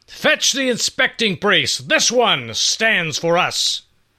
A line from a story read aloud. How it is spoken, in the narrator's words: In that booming voice of his, Issachar demanded, and loudly